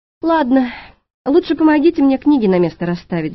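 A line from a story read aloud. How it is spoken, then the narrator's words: Sighing. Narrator (Russian): вздохнула я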